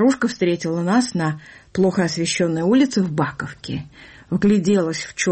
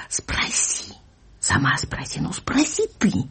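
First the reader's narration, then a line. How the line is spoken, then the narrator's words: Girl's eager whisper. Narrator (Russian): Другая девочка ... горячий шепот ее и мамы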